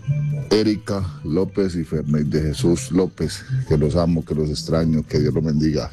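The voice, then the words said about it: Deep hoarse announcer-like voice. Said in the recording (Spanish): “¡Ay, qué ronca era la tuya! Parece que te hubieras tragado un locutor. ... tiene voz de locutor. Tiene voz de locutor”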